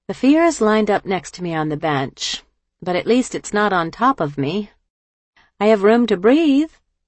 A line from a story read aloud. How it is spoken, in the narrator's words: With a little laugh, she answered